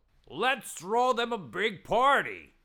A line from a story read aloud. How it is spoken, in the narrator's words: Someone shouted